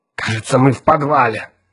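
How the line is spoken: Hissed. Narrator (Russian): прошипел Отто

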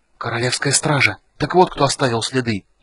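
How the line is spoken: Feverish whisper. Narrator (Russian): лихорадочно зашептал Рейстлин

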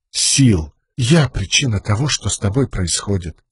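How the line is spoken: Quiet. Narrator (Russian): тихонько проговорила она

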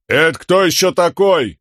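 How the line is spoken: Shouted back. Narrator (Russian): крикнул в ответ ему Камень

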